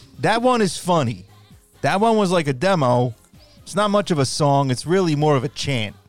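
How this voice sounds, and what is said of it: Tommy Mottola impression, Italian accent. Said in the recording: “I'm going to speak as Tommy. Maybe I'll put a little Italian accent into it. ... There's no way that Mottola sounded like that.”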